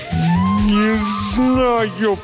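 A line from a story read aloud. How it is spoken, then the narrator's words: Moan. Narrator (Russian): простонал он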